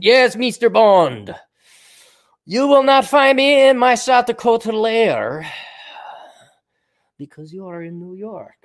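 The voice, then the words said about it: Put-on Bond villain accent. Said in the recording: “I'll talk with an accent.”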